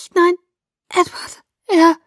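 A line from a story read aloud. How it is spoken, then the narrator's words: Croaking. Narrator (German): krächzte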